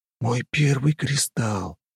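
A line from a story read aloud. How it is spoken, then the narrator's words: Mutter. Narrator (Russian): пробормотал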